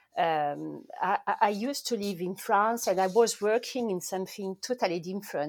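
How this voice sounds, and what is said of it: Strong French accent. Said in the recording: “you notice I'm French. My accent is very French.”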